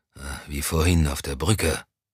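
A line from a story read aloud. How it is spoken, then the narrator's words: Murmured. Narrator (German): murmelte Moussan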